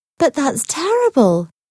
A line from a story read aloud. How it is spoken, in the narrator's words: exclaimed Paloma